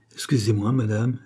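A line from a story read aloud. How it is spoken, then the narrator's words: Plain. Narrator (French): dit Charny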